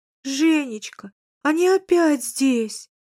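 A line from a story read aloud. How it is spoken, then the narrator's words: Bitter moaning. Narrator (Russian): горько стонала она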